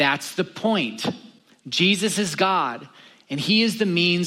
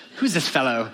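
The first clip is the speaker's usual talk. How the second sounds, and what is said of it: Put-on British accent. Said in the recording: “They sound British.”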